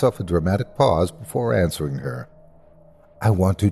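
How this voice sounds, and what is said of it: Usual voice. Nothing is said of it.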